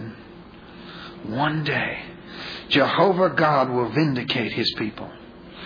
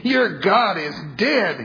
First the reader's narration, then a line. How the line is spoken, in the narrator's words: he wailed